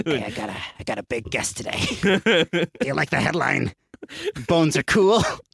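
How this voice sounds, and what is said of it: Raspy impression like smoking bus driver. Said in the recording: “Your impression of Mark Maron is like a bus driver, like a smoking bus driver.”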